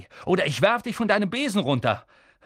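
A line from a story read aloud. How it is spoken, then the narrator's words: Shouted. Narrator (German): rief Harry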